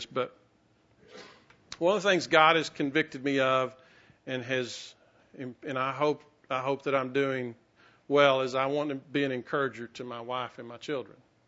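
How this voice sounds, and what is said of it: Emotional, choked-up voice. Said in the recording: “I'm already getting emotional”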